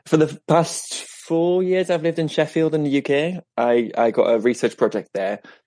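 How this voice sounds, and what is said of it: British-sounding English accent. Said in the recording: “ended up sort of picking up the accent ... I suddenly sound like a bag of chips ... he has kind of a British accent too”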